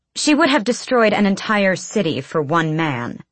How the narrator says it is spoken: Hisar snapped

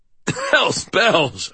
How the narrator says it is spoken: I choked out, coughing

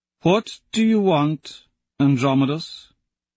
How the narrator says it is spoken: The Sovereign asks slowly

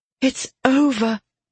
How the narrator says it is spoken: Aura breathed, her voice was magnified

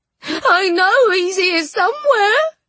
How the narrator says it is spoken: shrieked the ghost

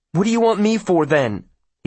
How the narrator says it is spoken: he demands uneasily

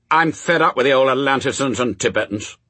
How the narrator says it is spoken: snapped Adam

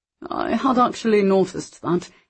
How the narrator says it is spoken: said with a quick laugh

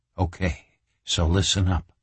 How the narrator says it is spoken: Reacher whispered

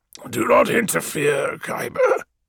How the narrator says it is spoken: rasped Malaghurst

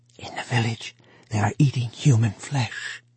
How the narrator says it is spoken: he whispered

